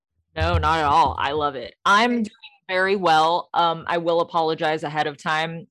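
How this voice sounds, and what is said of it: Hoarse, strained lost voice. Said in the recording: “I have lost my voice and it a little painful to talk right now”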